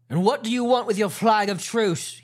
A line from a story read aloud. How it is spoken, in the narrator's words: He cried